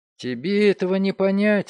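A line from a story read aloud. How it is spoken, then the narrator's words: Confused mutter. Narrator (Russian): растерянно бормотал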